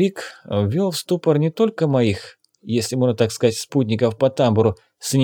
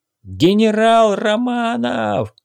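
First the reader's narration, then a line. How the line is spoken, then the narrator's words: Loud deep-breath shout. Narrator (Russian): набрав в легкие побольше воздуха, я снова закричал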